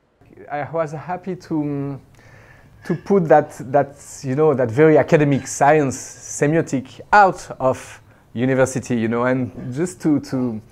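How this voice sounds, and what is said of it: French-accented English, not standard. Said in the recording (Chinese): “有一些法语的口音，所以说的可能不是很标准”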